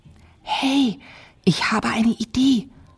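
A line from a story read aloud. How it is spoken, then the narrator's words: Called out. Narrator (German): rief Ada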